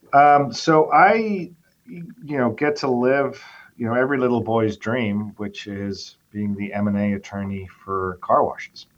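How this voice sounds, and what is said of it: Noticeable non-local accent. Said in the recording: “you're going to have to explain the accent, too.”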